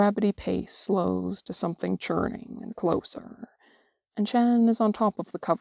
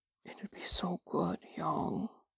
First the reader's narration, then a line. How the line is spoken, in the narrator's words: Drungen murmurs